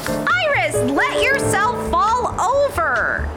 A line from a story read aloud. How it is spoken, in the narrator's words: I shouted